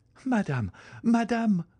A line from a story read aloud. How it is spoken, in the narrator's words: cried Valentine, calling her stepmother